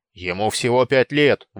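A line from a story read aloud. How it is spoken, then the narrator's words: Angry objection. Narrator (Russian): возразил Сапроний, сердито тряся подбородками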